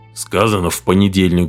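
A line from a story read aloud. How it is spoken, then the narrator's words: Grumble. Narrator (Russian): буркнул Бакстер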